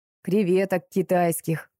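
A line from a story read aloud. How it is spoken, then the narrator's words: Sighing. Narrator (Russian): вздохнул Сережка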